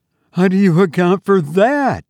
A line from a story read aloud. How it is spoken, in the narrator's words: she cried